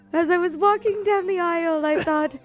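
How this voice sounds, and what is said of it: High-pitched fake female British voice. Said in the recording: “This is British. He's very British ... it's so British ... When I do a high-pitched voice, I go British ... doing a fake woman voice”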